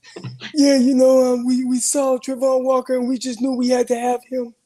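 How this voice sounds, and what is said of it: Raspy Trent Baalke impression. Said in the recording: “does a great Trent Baalke impression ... got that raspy voice and stuff”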